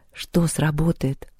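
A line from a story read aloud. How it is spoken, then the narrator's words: Dejected, sinking voice. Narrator (Russian): упавшим голосом спросила Лёля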